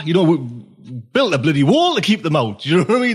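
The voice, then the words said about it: Geordie accent from northeast England. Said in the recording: “Is your accent? Is that what we call a Geordie from the northeast of England?”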